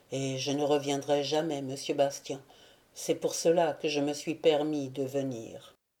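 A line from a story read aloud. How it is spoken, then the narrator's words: Murmured. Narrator (French): murmura Jean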